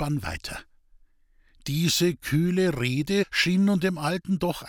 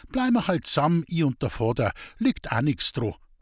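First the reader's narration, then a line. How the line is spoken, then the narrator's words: Seemingly calm reply. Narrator (German): erwiderte Rosel scheinbar ruhig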